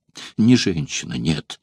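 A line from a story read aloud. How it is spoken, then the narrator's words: Sad reply. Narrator (Russian): ответил гладиатор, печально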